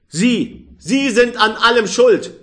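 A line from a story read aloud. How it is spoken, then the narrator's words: Angry. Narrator (German): sagte er zornig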